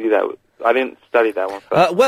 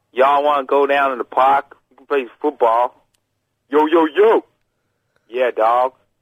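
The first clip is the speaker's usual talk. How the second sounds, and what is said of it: Put-on Texan accent. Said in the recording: “like a Texan accent.”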